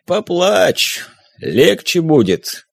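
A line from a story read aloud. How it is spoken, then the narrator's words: Hoarse male voice. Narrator (Russian): произнес хриплый мужской голос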